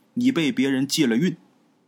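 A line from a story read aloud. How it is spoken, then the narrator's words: Flat, calm. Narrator (Chinese): 道长淡淡的跟他说了一句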